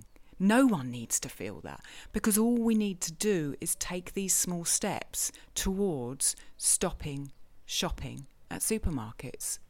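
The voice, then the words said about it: Speaks with a noticeable accent. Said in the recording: “Just the way you put things and your accent.”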